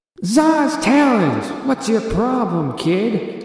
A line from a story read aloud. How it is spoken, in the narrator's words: the figure yelled